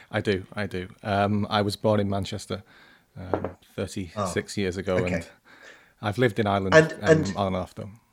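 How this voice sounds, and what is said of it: Northern English accent. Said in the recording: “you don't have an Irish accent. You've got a Northern accent.”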